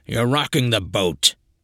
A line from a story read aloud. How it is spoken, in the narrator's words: Charon grumbled